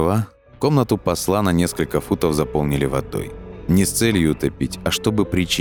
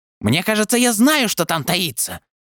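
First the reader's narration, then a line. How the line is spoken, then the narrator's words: Exclaiming. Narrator (Russian): воскликнул Даринг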